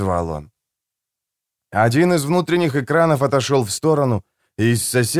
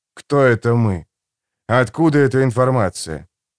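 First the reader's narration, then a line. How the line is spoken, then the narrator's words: Sighing. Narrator (Russian): Рейвенор вздохнул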